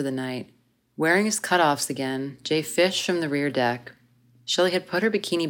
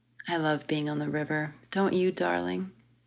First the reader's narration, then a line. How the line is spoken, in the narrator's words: Shelley said softly